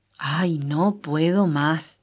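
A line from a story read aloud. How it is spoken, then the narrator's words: Exclaimed. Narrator (Spanish): exclamó él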